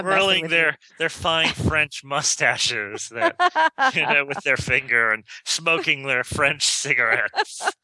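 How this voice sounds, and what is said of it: Put-on French accent sounding Russian. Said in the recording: “why does my French accent sound Russian?”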